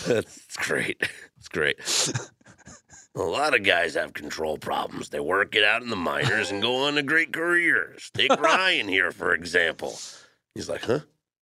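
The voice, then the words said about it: Good impersonation of another person's voice. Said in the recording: “You do some good impersonations, man.”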